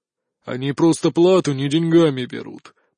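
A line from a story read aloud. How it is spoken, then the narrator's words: Grumbling. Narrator (Russian): проворчал он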